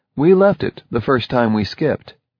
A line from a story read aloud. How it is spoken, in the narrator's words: he said